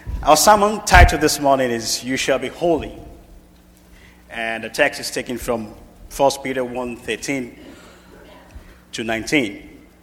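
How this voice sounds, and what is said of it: Speaker's own regional accent. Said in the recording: “Don't mind my accent. ... And don't be surprised to hear me say y'all.”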